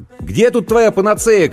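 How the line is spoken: Shouted. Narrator (Russian): крикнул я

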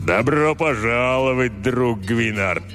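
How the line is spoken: Booming. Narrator (Russian): прогудел он

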